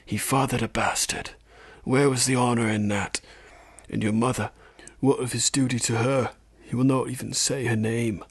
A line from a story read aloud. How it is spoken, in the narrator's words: a small, sly voice whispered